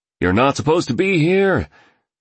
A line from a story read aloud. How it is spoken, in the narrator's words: shouted the driver, clearly a security guard, in a thick South African accent